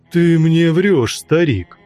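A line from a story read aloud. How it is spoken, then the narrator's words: Exclaimed with croaking laughter. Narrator (Russian): Один из бродяг с задорным каркающим смехом воскликнул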